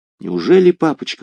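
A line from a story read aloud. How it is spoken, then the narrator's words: Startled exclamation. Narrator (Russian): воскликнула Батильда, вздрогнув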